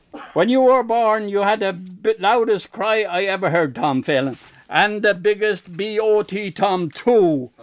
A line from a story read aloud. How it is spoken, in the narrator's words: she screeched